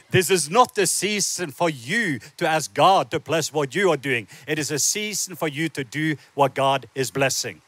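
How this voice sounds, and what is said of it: Norwegian accent. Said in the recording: “my accent, I am not originally from the Deep South ... I was born in the south part of Norway”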